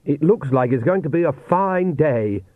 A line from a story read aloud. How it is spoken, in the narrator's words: said Oates happily, and he did feel happy to his amazement